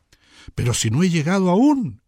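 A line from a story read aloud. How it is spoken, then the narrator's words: Absorbed exclamation. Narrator (Spanish): exclamó Hans Castorp, absorto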